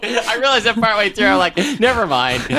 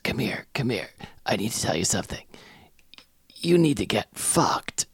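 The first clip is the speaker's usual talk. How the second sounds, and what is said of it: Grandmother voiced like a mafia boss. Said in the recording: “Why is Grammy like Don Corleone?”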